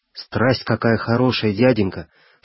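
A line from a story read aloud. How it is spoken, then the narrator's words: Delighted exclamation. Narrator (Russian): с восторгом воскликнул мальчик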